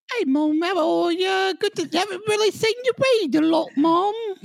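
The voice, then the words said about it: Put-on British Cockney accent. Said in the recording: “Maybe take a little Cockney out of it ... I'm doing my British accent”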